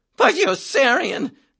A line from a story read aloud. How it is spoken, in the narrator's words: Major Danby exclaimed